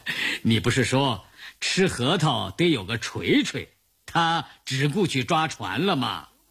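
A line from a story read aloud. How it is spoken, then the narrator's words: Smiling, conciliatory. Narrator (Chinese): 一向沉默寡言的聂荣臻这个时候微笑着打圆场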